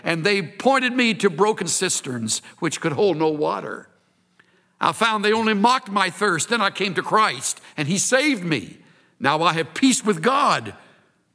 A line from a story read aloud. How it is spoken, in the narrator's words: he cried